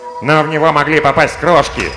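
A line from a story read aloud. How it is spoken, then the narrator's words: Grumbling, hatter. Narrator (Russian): проворчал шляпочник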